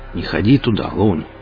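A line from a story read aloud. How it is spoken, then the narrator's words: Familiar husky voice. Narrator (Russian): послышался знакомый хрипловатый голос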